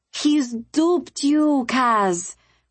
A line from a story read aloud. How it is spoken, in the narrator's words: moaned